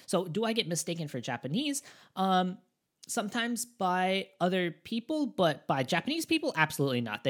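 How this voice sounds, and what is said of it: Non-native English-speaker accent. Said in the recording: “gaijin accent, a foreigner accent ... I have that foreigner accent. There is no mistaking me.”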